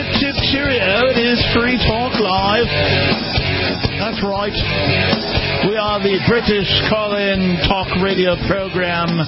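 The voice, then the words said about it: Bad Monty Python-style British imitation. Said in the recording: “doing a horrible Monty Python imitation, and it's going poorly. ... My horrible imitation is going poorly”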